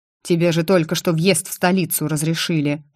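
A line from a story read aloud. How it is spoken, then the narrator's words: Grumbling. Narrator (Russian): проворчал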